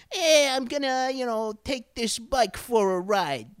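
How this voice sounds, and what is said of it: Tough Brooklyn movie-thug accent. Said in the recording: “Brooklyn it up ... a character is from the bad part of town in the movies, they always put on that thing. they always put on that accent.”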